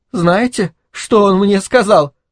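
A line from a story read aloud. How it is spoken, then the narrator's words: Sobbing. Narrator (Russian): прорыдала Грета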